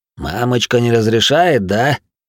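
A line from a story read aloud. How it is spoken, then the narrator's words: Laughing. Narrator (Russian): рассмеялся Кнут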